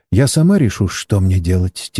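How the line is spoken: Quiet voice. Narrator (Russian): тихо произнесла китаянка

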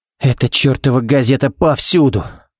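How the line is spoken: Sighed. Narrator (Russian): вздохнул Баллок

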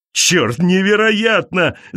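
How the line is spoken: Shouting, male. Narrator (Russian): закричал он

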